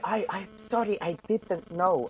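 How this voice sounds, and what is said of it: Put-on Icelandic accent. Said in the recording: “they all sound like Björk ... your Icelandic impersonation”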